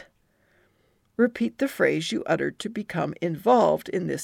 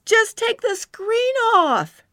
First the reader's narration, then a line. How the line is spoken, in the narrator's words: she cried